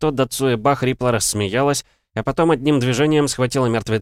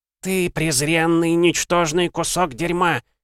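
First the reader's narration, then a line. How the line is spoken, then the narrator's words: Vicious female hiss. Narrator (Russian): Злобно прошипела она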